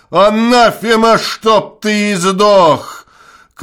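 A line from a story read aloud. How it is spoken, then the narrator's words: Shout. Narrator (Russian): крикнул он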